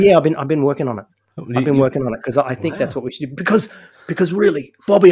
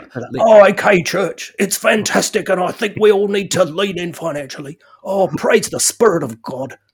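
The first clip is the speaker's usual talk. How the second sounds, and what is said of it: Imitated preacher with Kiwi accent. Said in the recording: “Can you do a Brian Houston impression? ... you got to put in a Kiwi accent. ... That's actually really good.”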